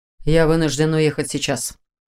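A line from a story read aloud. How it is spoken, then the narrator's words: Cold. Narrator (Russian): холодно сообщил он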